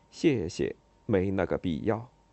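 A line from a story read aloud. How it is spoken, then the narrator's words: Imitative muttering. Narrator (Chinese): 模仿一下安东尼奥，就嘀咕了一句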